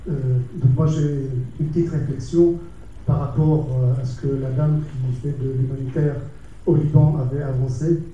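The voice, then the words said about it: Lebanese-accented French. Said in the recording (French): “d'après mon accent, vous avez reconnu, je suis libanais”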